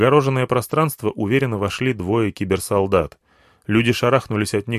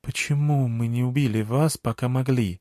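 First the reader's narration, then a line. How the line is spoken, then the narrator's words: Elder's quiet question. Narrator (Russian): тихо спросил старейшина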